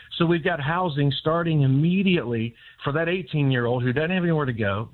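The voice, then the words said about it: Excited, energetic voice. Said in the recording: “if you can't tell by my voice, we're pretty fired up ... We're just fired up”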